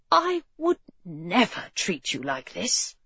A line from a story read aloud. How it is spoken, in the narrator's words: he whispered in her ear